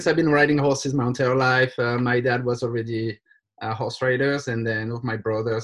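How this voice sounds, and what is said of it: French accent in English. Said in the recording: “I'm from France, as my accent can let people guess easily”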